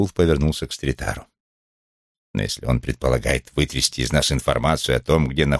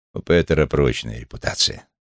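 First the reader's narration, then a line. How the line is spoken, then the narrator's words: Plain. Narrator (Russian): сказал Стритар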